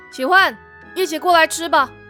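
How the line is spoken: Calling out. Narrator (Chinese): 他又 对奇幻仙子喊了句

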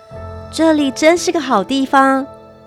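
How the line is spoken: Admiring exclamation. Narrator (Chinese): 尼尔斯忍不住赞叹

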